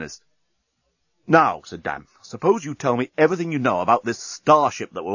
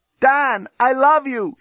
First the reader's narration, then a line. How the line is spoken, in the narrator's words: shouted Lucy from her cell